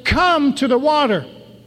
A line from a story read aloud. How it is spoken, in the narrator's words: the third one to the fourth, and so on, until the whole caravan hears the shout